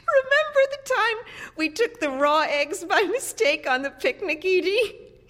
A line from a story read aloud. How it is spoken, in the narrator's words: Mildred said, laughing